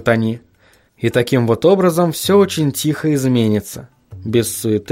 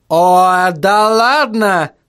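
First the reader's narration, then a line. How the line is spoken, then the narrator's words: Exclaimed. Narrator (Russian): воскликнуло другое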